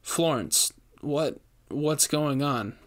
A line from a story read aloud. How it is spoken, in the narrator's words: managed to stammer out